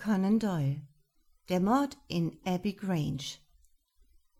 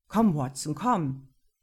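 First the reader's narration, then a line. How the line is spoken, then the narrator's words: Calling out. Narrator (German): rief er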